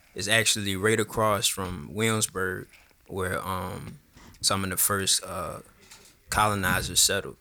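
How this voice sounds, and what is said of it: Slight regional accent. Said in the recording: “I heard a little accent.”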